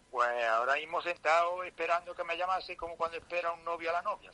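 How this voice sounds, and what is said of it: Southern Spanish accent. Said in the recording (Spanish): “Me, suena esa voz, ... con acento del sur me, suena mucho”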